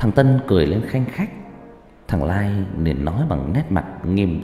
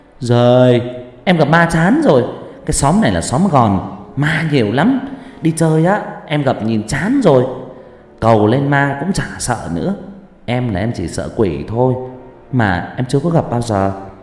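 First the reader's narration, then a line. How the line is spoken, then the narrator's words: Cheerful childlike reply. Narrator (Vietnamese): Thằng Tân đáp bằng giọng trẻ con hớn hở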